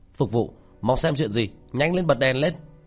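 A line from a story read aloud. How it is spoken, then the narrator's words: Raised voice calling out. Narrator (Vietnamese): có người khách cao giọng hô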